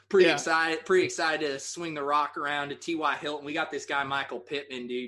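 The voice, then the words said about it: Country-accented impression of another person. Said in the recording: “Is that your Tough country? ... Is that your Phil Rivers accent?”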